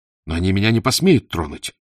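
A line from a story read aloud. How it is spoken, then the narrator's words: Furious exclamation. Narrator (Russian): воскликнул в бешенстве Абдар-Рахман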